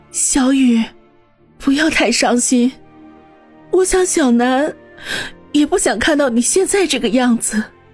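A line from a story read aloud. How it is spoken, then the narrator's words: Tearful choked voice. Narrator (Chinese): 方心眼圈一红，流出眼泪来，哽咽的说道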